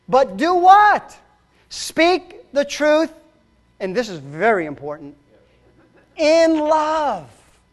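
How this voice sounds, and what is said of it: Raised, loud preaching voice. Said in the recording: “I may be raising my voice,”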